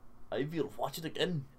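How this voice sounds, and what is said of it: Attempted Swedish accent, sounds German. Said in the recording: “what's the Swedish accent? He would say it in a Swedish accent... That sounds like a German accent.”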